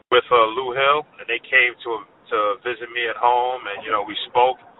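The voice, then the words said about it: Brooklyn accent. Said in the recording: “I know your accent. I believe you were originally from Brooklyn, right?”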